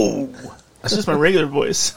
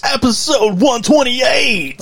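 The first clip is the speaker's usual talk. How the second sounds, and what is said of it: Loud announcer-style voice. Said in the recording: “doing your announcer voice? ... Oh, you're like the loud, like, yeah, guy.”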